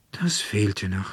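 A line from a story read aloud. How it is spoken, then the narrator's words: Annoyed sigh. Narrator (German): seufzte Veronika und ärgerte sich recht über die 12-jährige Schwester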